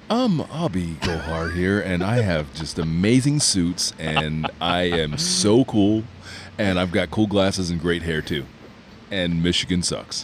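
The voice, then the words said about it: Imitates another person's radio voice. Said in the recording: “double radio voice ... radio voice ... I'll do your voice and you can do my voice”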